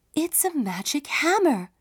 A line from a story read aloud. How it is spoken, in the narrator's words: exclaimed